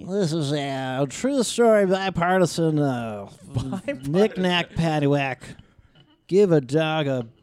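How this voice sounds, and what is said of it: Wacky cartoon professor and announcer voice. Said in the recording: “you do that voice? ... It's like a bit of the wacky professor from The Simpsons and Harry Carey ... he was a baseball announcer”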